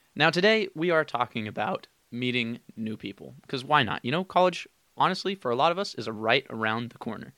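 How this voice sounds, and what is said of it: Slightly raspy, low-energy voice. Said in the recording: “my voice is a little raspy ... the energy isn't that great today”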